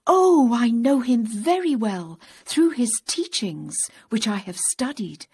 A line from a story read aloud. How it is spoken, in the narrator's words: he exclaimed